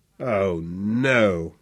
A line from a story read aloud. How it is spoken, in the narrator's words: groaned